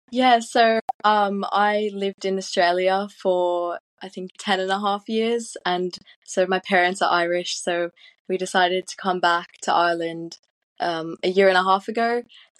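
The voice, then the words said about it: Soothing, relaxing Australian-sounding accent. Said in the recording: “that accent is so soothing ... that accent wouldn't work if you were shouting. It's just too relaxing for that.”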